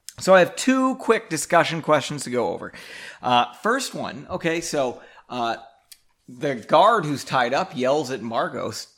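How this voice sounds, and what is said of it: Strained, fading voice. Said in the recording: “my voice is dying here.”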